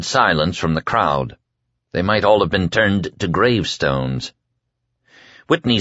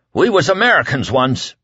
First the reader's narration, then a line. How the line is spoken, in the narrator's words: Whitney cried at last